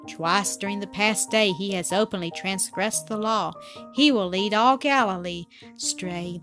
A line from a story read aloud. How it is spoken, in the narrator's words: they said